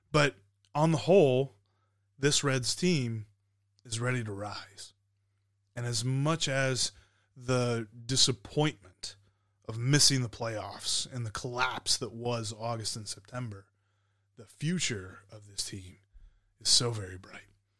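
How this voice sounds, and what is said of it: Rough, slightly hoarse voice. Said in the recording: “my voice is a little bit rough”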